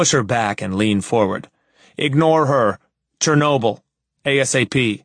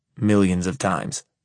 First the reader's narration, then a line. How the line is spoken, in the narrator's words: I mutter